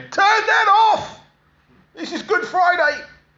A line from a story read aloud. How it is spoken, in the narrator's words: her shouting at him